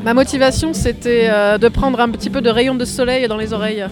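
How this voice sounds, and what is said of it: Southern French accent. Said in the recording (French): “Avec, l'accent du Sud en plus... Je viens de Marseille.”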